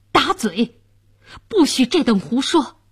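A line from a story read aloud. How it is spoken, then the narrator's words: Furious official. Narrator (Chinese): 监斩官大怒道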